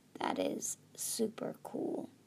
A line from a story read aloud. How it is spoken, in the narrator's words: whispered